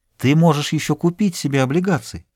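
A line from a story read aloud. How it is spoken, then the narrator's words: Plain. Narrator (Russian): сказала она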